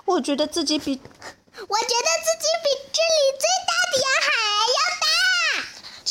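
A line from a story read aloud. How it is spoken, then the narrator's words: Screaming. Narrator (Chinese): 婷卡尖叫着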